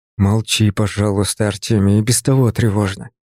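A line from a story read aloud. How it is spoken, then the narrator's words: Grumbled mutter. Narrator (Russian): буркнул я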